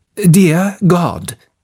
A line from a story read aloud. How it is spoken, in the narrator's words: began the captain in a shaky, embarrassed voice